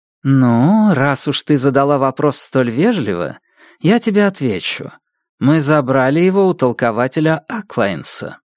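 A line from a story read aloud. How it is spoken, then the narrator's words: Thoughtful. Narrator (Russian): сказала Зида, задумчиво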